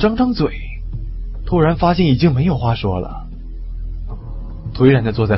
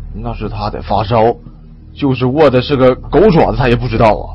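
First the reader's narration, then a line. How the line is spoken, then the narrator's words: Low voice. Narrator (Chinese): 王强低声说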